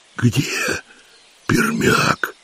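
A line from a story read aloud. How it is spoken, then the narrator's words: Hoarse question. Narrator (Russian): хрипло спросил Вольга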